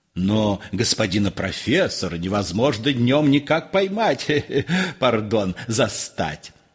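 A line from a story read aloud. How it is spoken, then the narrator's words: Hyena-like laughing sobs. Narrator (Russian): Гость, смеясь, всхлипывал, как гиена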